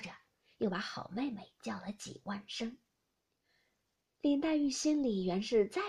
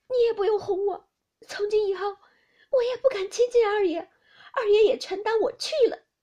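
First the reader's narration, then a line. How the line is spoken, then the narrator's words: Crying. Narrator (Chinese): 撑不住，哭道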